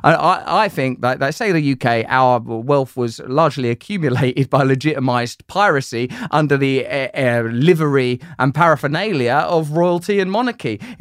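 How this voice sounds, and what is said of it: British English accent. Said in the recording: “people hear my accent and think, this guy is going to tax me without representation”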